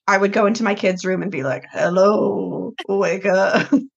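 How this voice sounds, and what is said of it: Hoarse, low, raspy sick voice. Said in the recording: “I just sound like I'm in the pit of despair because I have contracted some sort of respiratory illness ... her voice drops like an octave ... now I just kind of sound like I've been smoking for 20 years ... apologize for my voice”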